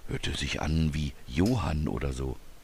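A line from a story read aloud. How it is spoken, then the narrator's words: Whispering back. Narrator (German): flüsterte Robert zurück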